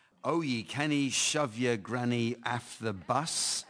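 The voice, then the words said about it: Thick Scottish accent. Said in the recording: “my Scottish accent is too thick, but it is. It's authentic.”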